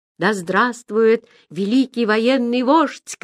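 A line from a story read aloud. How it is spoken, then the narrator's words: Shouted. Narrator (Russian): крикнул он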